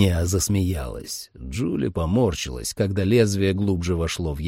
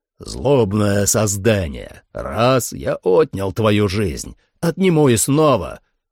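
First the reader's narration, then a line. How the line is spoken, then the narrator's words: Shouted. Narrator (Russian): крикнул Трал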